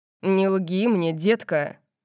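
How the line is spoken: Growling. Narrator (Russian): прорычал он

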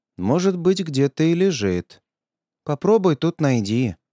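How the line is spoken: Sigh. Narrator (Russian): вздохнула

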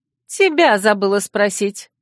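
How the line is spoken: Cold snort. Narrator (Russian): Холодно фыркнула девица

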